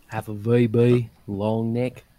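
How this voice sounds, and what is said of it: Put-on Australian accent. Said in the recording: “You found your accent ... Australian accent”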